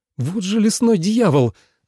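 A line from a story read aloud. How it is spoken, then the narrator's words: Loud exclamation over rain. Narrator (Russian): воскликнул Тоби, на мгновение заглушая своим голосом треск горящих дров и шум дождя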